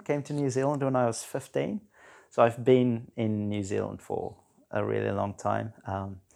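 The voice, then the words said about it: Slight South African accent. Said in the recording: “I've got a little bit of a South African accent.”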